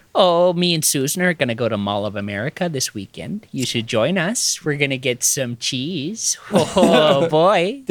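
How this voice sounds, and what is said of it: Put-on Midwest American accent. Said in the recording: “my favorite American accent is a Midwest accent... Wisconsin or Minnesota... everyone who has that accent is a 40-year-old mom to me”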